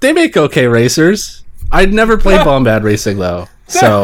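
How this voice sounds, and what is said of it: Usual voice. Nothing is said of it.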